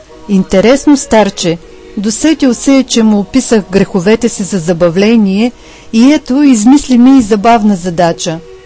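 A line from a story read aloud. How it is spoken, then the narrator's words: Prince laughing to himself. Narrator (Bulgarian): Засмял се князът и си рекал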